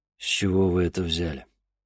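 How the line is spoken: Dry question. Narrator (Russian): сухо спросил Денис

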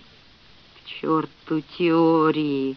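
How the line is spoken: Hoarse guttural grumble. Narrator (Russian): буркнул Фред, голос его стал хриплым и гортанным, как у лариян

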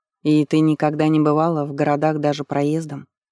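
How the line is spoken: Plain. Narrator (Russian): спросил царевич

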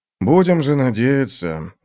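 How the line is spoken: Sigh. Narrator (Russian): вздохнул Танакалиан

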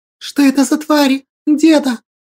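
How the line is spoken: Frightened exclamation. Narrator (Russian): испуганно воскликнула Василинка

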